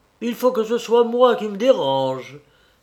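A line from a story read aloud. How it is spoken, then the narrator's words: Loud forceful exclamation. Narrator (French): s'écria mon père fortement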